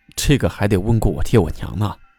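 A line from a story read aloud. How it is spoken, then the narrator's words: Muttering. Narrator (Chinese): 就嘀咕道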